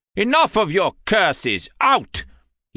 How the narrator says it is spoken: he roared

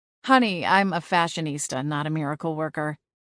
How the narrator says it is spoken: Liana retorted with a laugh

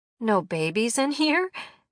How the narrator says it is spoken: Nikki laughed

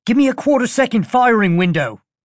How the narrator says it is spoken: Pud Sednik snapped back, his voice transmitted via the mech's hardlines

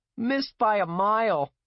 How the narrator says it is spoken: he yelled

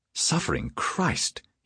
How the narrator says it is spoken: he breathed, his passion cooling precipitously

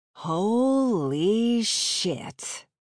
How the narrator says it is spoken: Kat drawled

